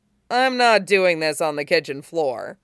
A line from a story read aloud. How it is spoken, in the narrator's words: he laughed